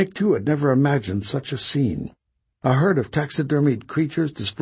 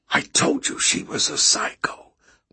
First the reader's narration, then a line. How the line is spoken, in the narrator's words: Marta whispered